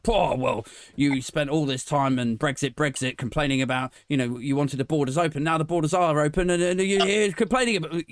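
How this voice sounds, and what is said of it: Imitates another person's voice. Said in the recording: “impersonating”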